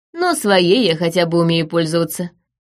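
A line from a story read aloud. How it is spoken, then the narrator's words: Scoffing. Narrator (Russian): хмыкнул Джордан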